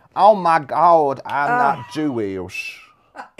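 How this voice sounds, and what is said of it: Terrible put-on American accent. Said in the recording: “doing my American voice, where they were like, where are you from? Minnesota and Sweden? ... Say something in the American terrible accent. ... This is a terrible audition reel.”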